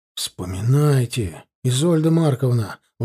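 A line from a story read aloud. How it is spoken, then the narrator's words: Exclamation. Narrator (Russian): воскликнул я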